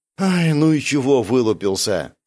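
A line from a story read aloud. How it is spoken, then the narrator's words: Sighing. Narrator (Russian): вздохнул я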